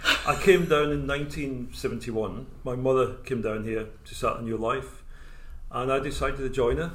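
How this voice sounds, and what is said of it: Scottish accent. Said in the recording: “Scottish accent”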